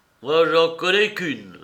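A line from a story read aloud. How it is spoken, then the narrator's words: Moaning reply. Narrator (French): reprit Zinzin dans une sorte de gémissement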